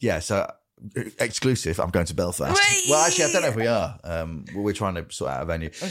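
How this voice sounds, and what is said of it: Usual voice. Nothing is said of it.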